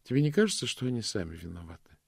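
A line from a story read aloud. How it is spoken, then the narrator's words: Tender question. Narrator (Russian): спросила госпожа Ласка нежно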